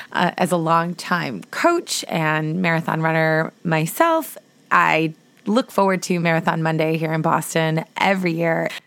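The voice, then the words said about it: Hoarse voice. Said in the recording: “my voice is a little bit hoarse from cheering so loudly ... I still haven't gotten my voice back”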